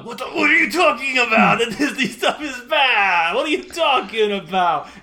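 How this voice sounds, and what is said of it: Imitated Mario movie voice. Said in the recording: “This is my Chris Pettis Mario impression.”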